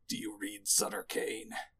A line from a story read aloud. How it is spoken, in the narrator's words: snarls at Trent